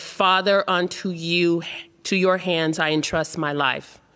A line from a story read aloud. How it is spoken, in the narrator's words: Crying out in a loud voice, Jesus said